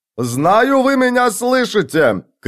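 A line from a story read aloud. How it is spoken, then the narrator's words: Shout. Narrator (Russian): крикнул он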